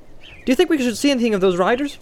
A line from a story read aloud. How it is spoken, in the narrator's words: asked Pippin cheerfully